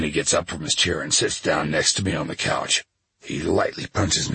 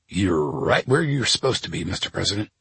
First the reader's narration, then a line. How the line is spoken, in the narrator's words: he says